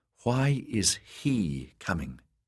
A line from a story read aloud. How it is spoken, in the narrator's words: she asked